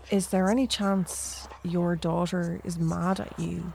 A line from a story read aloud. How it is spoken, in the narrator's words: Alaha asks